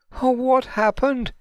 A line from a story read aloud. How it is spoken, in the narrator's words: Imani said in between sobs